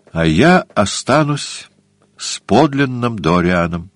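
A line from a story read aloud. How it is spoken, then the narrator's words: Sad. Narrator (Russian): сказал он грустно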